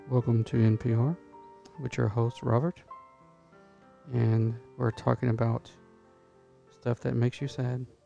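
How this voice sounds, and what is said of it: Mock NPR radio host voice. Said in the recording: “That's your NPR voice?”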